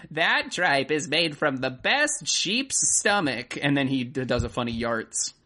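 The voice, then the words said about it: Old lady character voice. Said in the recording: “this old lady who sounds like me in every improv scene when I'm playing an old lady ... That's a really good old lady voice.”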